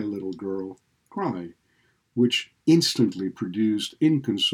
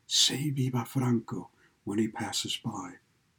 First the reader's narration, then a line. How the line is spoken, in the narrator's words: answered and whispered